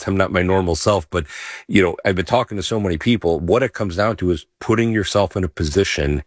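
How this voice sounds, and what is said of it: Scratchy, slightly hoarse voice. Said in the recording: “my voice may be a little scratchy today”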